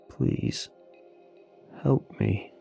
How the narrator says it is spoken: he said, his voice nearly breaking

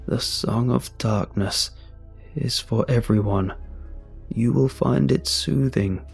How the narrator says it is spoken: he said, his voice cold and distant

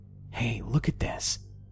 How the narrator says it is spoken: I turned to my dad and whispered

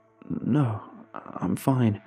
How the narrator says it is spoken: I stammered out

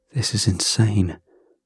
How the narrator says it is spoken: I said under my breath

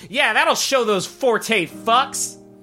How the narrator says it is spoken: she shouts

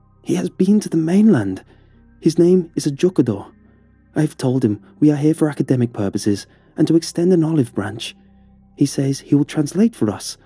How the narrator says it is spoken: announced excitedly

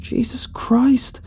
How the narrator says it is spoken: I cried

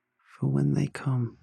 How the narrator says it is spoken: said softly

